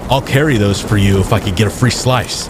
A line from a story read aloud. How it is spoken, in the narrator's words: Terrence said